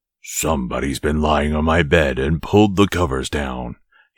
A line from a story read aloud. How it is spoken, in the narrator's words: he growled in his great big voice